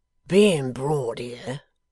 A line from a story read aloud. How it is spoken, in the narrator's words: said Riderhood gruffly